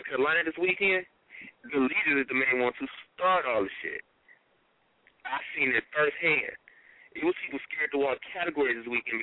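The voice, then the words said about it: Noticeable regional accent. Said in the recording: “lose the accent a little bit because your accent is like getting to me a little bit”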